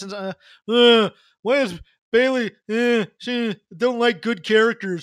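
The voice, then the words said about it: Mock voice of a jaded male fan. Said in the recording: “That's my impression of him.”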